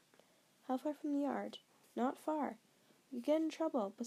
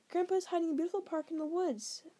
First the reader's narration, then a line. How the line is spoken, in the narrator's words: Seth blurted